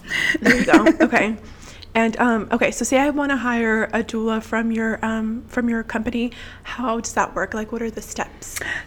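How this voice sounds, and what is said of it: Messed-up, impaired voice. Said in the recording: “I wish my voice wasn't messed up now”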